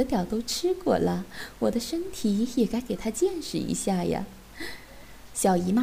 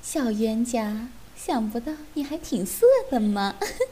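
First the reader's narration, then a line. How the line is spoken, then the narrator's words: Giggling teasingly. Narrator (Chinese): 三个半老徐娘笑嘻嘻地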